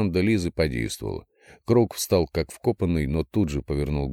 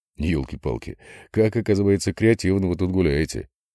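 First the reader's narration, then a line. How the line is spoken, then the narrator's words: Laughing. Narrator (Russian): рассмеялся Владимир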